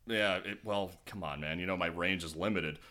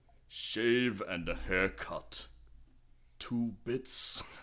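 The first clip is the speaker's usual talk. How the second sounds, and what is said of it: Imitates another person's voice, badly. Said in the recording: “what a Judge Doom line would sound like if Christopher Lee was saying it ... it kind of sounded like Stewie doing a Ving Rhames impression ... That's awful ... That almost sounded like Peter Steele a little bit.”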